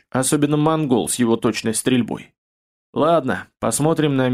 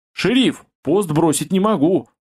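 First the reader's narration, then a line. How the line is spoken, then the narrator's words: Loud yell. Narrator (Russian): заорал мужик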